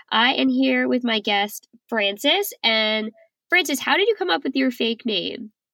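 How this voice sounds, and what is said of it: Congested, funny-sounding voice. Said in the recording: “I have a terrible cold, so my voice sounds a little funny”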